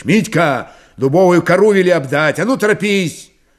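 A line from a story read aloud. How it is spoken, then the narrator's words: Shouted. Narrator (Russian): крикнул Мирон Григорьевич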